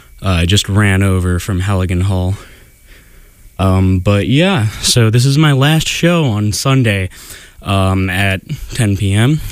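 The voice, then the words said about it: Out of breath, panting speech. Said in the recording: “Sorry, I'm a little out of breath here.”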